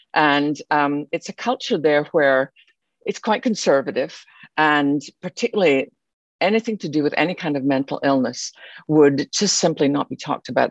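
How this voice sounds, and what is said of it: Scottish accent. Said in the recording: “You could probably tell by my accent, although I live in Texas now, I didn't start there. I was born in Scotland.”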